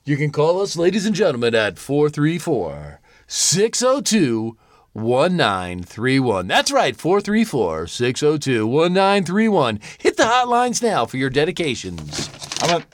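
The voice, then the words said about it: Radio announcer voice. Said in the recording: “Why am I just hearing this voice now? ... That was my radio voice.”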